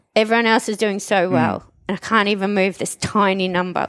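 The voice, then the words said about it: Emotional, tearful voice. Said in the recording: “Sorry, I'm getting emotional.”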